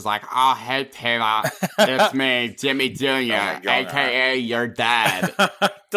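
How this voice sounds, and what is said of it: Weird put-on cartoon character voice. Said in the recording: “It's just him doing a fucking weird voice.”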